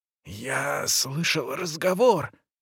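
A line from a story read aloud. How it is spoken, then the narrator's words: Whisper, cook. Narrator (Russian): зашептала кухарка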